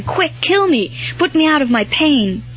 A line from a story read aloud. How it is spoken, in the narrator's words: cried out in a kind of desperation